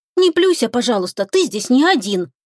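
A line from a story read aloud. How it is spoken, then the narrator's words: Angry. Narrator (Russian): Сердито заметила Оксана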